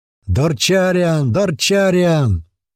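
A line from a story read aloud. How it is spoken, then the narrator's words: Many voices yelling. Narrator (Russian): орали несколько глоток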